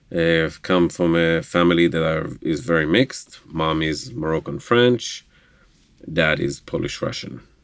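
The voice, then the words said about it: Slight Israeli Hebrew accent. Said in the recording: “we hear that you have an accent ... I am from Israel, Jerusalem, Israel ... speaking Hebrew. So that's where the minor accent leftovers are.”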